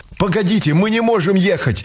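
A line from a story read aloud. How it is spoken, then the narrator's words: Sudden cry. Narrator (Russian): вскрикнул Аленин знакомый из электрички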